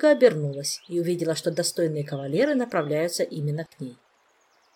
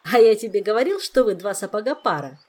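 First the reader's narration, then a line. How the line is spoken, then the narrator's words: Joyful jester. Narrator (Russian): радостно продолжал шут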